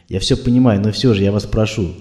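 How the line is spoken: Calm. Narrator (Russian): спокойно продолжала Ольга

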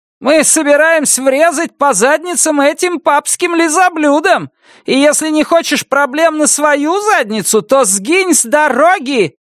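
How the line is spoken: Shouted reply. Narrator (Russian): крикнула в ответ Нан Робертс

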